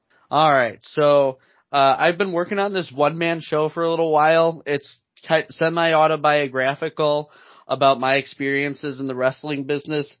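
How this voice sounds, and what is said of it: Hoarse voice. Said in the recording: “My voice is still a little hoarse from Rocket Pro”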